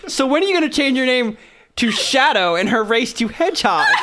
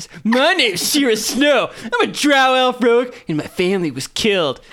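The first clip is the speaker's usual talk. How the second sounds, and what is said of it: Imitates another person's voice. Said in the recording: “My impersonation of Shira.”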